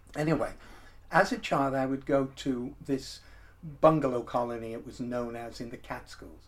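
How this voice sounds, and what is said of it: American accent. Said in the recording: “I lived in the United States, as you can probably tell from my accent.”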